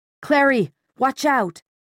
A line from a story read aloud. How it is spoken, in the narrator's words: Simon shout